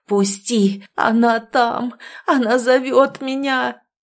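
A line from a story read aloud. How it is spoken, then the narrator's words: Agonized rasping. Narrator (Russian): хрипел в агонии Александр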